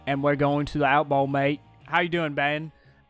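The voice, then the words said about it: Put-on Australian accent. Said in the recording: “I lost my accent. My Australian accent. ... You went from Australian to Jamaican.”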